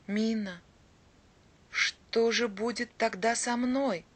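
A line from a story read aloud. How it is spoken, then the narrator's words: Quiet. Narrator (Russian): тихо проговорил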